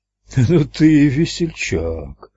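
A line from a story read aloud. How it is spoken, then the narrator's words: Relieved chuckle, fat man. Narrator (Russian): облегченно хохотнул толстяк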